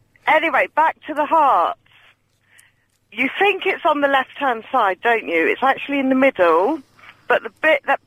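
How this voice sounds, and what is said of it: Southwest English Devon accent. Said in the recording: “You've got an accent. Where's your accent from? Southwest? ... I'm from Devon originally.”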